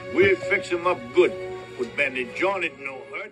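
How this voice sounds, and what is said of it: Put-on Cajun accent, pretty good. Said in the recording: “He was there to bail him out with that accent. He did a pretty damn good Cajun accent.”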